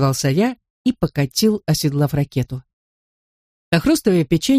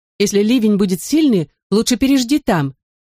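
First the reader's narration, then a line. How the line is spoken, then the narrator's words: Mother calling after. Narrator (Russian): крикнула мне вслед мама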